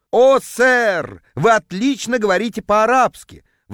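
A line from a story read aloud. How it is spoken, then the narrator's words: Ecstatic howl. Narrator (Russian): восторженно взвыл продавец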